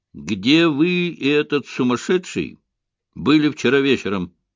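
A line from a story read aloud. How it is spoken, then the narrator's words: Calm inquiry. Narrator (Russian): спокойно поинтересовался Айшем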